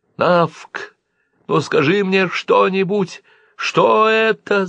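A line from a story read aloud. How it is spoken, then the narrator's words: Shout. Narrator (Russian): закричала Дождилика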